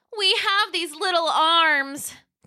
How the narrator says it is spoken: they cried

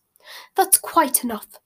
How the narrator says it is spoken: said Madame Malkin sharply

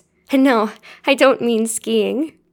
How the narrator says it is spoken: she giggled

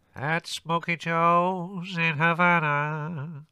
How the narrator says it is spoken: the gramophone proclaimed loudly in a nasal tenor voice

